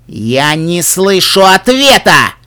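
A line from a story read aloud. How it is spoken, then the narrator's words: Stallion roaring. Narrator (Russian): взревел жеребец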